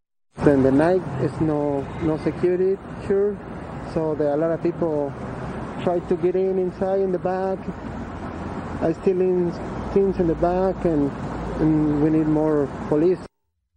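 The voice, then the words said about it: Speaks with a noticeable accent. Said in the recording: “you can hear he has an accent.”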